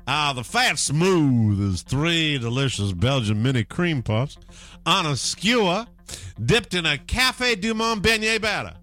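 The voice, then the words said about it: Put-on Texas accent. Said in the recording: “I'll do it in my best Texas accent.”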